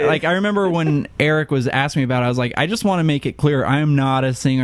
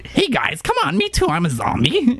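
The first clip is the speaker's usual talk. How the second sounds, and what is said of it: Goofy Shaggy-like cartoon character voice. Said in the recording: “You did have kind of a crazy voice ... very Scooby-Doo-esque ... Like Shaggy or something.”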